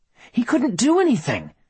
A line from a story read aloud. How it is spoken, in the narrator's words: she said hotly, unable to let the attack on Boyd go on without defending him